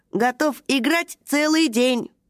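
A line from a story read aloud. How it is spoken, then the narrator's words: Funny electronic robot voice. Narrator (Russian): сказал робот смешным электронным голосом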